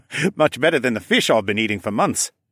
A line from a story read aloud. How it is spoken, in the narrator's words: the green dragon chuckled